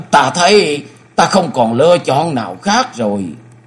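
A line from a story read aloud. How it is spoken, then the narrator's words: Trembling, pale. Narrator (Vietnamese): Gương mặt của Tập Phong tái nhợt, y run rẩy nói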